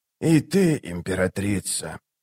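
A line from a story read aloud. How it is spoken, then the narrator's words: Whisper. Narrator (Russian): прошептал он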